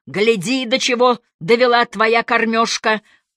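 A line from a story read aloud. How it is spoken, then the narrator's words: Yelling. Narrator (Russian): монстр орал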